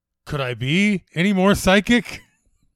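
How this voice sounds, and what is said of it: Imitates Chandler's sarcastic sitcom voice. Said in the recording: “my imitation of Chandler from the Psychic Friends Network”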